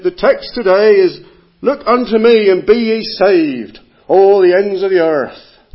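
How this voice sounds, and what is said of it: Attempted Cornish yokel accent. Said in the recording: “I can't do an Essex accent, but I'm going to try a Cornish one, because it's kind of similar ... this kind of yokel preacher”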